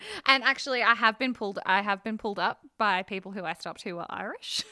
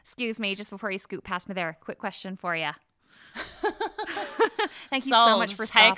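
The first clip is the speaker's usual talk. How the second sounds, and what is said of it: Put-on Irish accent. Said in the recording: “I just pretended to be Irish ... that little impression”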